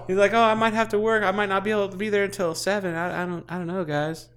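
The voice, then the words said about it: Poor impression of a friend. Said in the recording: “It's a terrible impersonation of you.”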